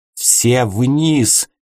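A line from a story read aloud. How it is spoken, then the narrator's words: Loud yell. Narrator (Russian): заорал он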